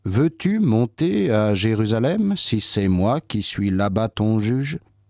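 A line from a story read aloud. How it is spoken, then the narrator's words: Plain. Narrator (French): Paul répondit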